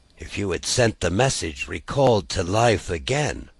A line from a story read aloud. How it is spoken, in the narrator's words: muttered Jerry